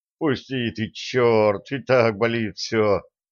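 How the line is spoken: Pained moan. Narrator (Russian): Простонал трудовик

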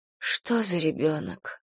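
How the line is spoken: Sighing. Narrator (Russian): вздохнула Эстер

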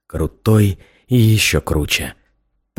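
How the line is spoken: Muttered. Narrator (Russian): пробормотал я

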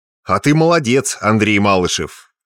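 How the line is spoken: Loud commanding tone. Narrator (Russian): громким командным тоном рассуждал вслух полковник Игнатьев

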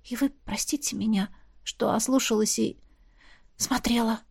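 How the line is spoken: Quiet reply. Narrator (Russian): отозвалась я тихо

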